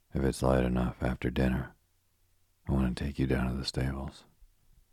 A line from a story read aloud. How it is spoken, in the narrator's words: miserably